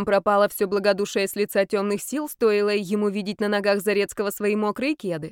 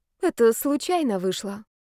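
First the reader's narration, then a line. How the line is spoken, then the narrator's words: Flustered, confused. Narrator (Russian): сообщил Зарецкий растерянно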